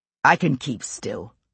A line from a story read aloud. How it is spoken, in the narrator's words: John said irritably